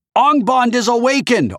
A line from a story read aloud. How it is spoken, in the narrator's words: Artemis shouted